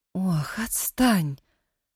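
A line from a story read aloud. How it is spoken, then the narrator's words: Weary dismissal. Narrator (Russian): Устало отмахивалась Нина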